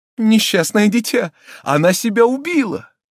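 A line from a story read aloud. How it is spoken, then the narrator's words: Horrified shout. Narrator (Russian): мадмуазель де Кардавиль закричала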